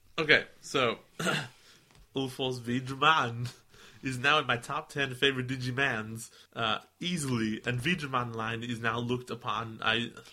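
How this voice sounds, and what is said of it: Hard-to-understand imitated accent. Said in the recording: “You just went Arnold Schwarzenegger. ... No one can understand you in that accent. ... Go back to American, please.”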